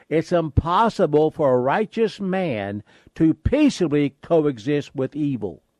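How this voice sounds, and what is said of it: Speaks very slowly and deliberately. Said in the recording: “let me say that very slowly”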